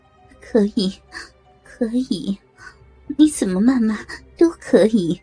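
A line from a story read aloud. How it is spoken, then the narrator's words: Leering laugh. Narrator (Chinese): 胡海峰淫笑着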